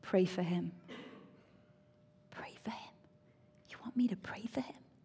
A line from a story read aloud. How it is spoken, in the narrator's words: God just simply spoke to me in a very quiet voice and he said